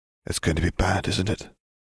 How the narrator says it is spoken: Katie whispered

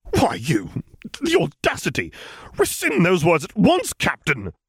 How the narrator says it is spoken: the man spluttered out

